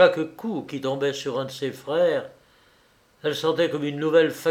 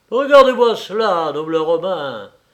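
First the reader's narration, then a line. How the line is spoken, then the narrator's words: Exclaiming man. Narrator (French): s'écria-t-il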